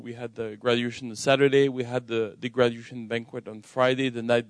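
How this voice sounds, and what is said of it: French accent in English. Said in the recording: “I'm originally from France, which explains my accent, all right, when I speak English.”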